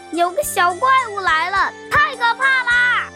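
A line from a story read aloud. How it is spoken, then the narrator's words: Frightened shouting. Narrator (Chinese): 吓得大喊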